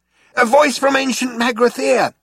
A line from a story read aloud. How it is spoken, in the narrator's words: shouted Zaphod